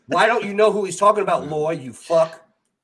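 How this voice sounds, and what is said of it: Yelling aggressively. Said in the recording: “you're yelling ... I'm aggressive”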